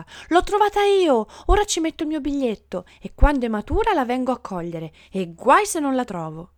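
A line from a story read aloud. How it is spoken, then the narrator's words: Shout. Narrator (Italian): L'altro gridava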